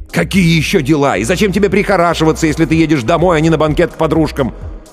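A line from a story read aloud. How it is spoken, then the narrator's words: Nearly shouting, agitated. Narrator (Russian): Увидев, что стало холоднее еще на 1 градус, Ллойд почти кричал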